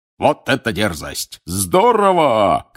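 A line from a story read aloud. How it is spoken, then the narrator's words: Shouting. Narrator (Russian): кричал Бэгман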